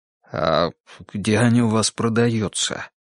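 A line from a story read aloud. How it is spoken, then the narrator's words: Near whisper. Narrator (Russian): почти шепотом поинтересовался Валера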